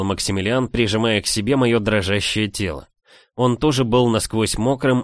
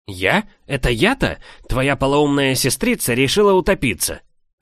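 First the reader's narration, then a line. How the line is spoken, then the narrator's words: Snapping retort. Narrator (Russian): огрызнулся в ответ бывший жених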